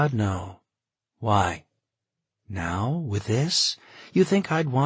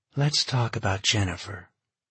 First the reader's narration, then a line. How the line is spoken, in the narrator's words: she said quietly